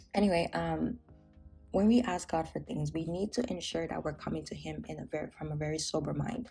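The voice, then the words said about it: Raspy morning voice. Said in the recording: “my voice might sound a little bit raspy, because it's in the morning and I usually have a very raspy voice in the morning”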